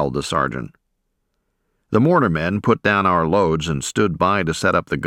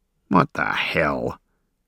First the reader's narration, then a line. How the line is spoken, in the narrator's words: grumbled a veteran